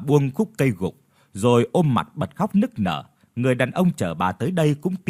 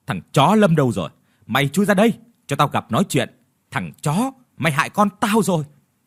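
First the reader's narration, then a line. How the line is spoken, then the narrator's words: Loud angry shout. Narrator (Vietnamese): Bà lớn tiếng quát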